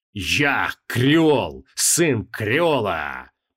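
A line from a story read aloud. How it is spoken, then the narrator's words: Booming voice, mage. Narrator (Russian): прогремел маг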